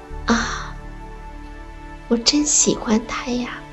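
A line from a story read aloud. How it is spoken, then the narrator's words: Heartfelt exclamation. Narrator (Chinese): 都会由衷的感叹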